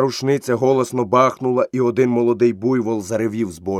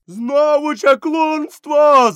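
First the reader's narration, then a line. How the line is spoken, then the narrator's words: Shouting crowd. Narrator (Ukrainian): закричали селяни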